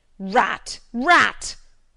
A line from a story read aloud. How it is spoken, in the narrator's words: bellowed out aloud